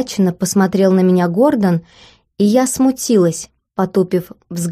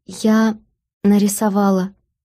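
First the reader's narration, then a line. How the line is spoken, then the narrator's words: Barely audible. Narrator (Russian): еле слышно вымолвила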